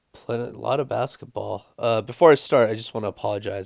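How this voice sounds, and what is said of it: Slightly off, sick-sounding voice. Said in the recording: “I'm a little under the weather, so my voice might sound a little funky”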